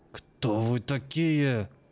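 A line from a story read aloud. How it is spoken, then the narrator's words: Growled. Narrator (Russian): прорычал он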